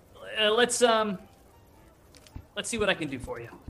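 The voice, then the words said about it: Character voice with an accent. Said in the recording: “I'm turning into Nook as I go with this accent.”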